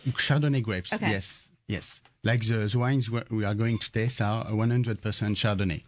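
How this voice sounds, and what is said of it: French accent. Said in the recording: “I love your accent. You must be French.”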